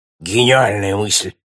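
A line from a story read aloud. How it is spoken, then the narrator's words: Exclaiming. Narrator (Russian): воскликнул опытный Симон Берли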